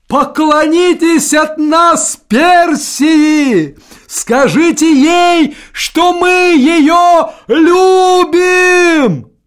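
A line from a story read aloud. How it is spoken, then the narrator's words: Shout. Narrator (Russian): он крикнул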